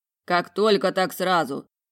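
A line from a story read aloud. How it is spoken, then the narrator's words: Displeased grumble. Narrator (Russian): пробурчал недовольно Морканд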